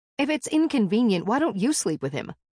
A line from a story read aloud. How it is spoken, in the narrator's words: snapped